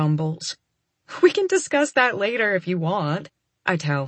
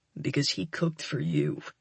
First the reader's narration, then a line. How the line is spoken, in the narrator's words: he grumbles again